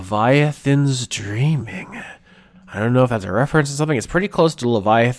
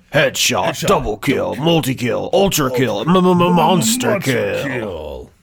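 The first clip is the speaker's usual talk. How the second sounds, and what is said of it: Deep video game announcer voice. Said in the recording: “Unreal Tournament announcer voice.”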